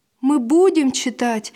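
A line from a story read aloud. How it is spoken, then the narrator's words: Joyful promise. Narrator (Russian): радостно пообещал Василь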